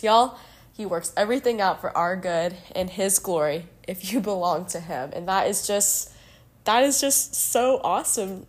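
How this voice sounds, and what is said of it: Voice affected by a cold. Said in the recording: “apologize for my voice. ... I'm getting over a little bit of a cold”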